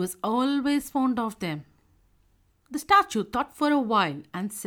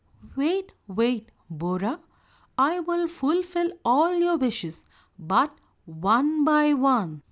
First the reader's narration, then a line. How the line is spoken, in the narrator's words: the angel said